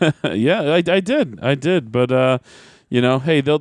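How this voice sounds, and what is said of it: Usual voice. Nothing is said of it.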